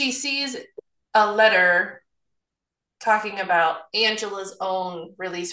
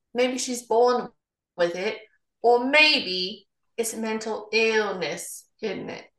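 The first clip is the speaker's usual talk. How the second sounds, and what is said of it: Bad put-on British accent. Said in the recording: “In a bad British accent, obviously.”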